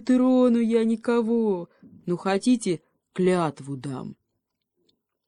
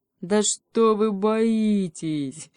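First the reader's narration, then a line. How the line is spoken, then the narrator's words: Guffawing. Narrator (Russian): захохотала свинья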